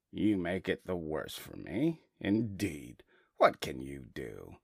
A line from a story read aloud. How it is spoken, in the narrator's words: the carter grumbled to himself